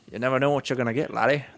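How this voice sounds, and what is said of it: Attempted Irish accent. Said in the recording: “I don't think I can do an Australian Irish accent. ... Do an Irish? ... Give it a try. ... That's not even an Irish term. That's Scottish.”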